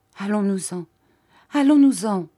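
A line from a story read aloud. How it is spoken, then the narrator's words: Stammering. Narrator (French): balbutia-t-elle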